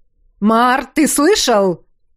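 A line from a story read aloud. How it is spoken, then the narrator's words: Barked in unison. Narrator (Russian): Одновременно рявкнули Уш и Ёж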